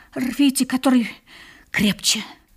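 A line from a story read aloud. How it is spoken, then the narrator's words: Barely audible. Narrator (Russian): Вандербуль еле слышно добавил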